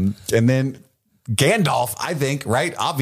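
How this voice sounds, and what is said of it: Usual voice. Nothing is said of it.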